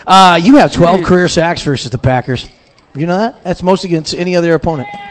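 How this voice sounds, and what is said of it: Professional radio announcer voice. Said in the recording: “back in my radio voice”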